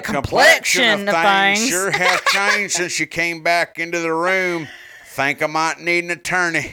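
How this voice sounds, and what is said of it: Put-on West Virginian accent. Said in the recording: “I was hoping you were going to read that in a West Virginian accent.”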